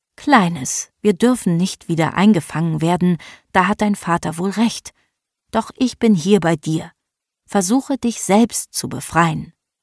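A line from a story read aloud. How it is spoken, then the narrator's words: Grandmother's gentle voice. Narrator (German): sprach mit sanfter Stimme zu dem Zicklein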